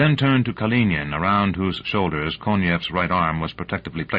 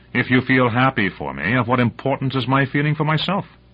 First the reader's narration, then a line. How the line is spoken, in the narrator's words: Palleron intervened impatiently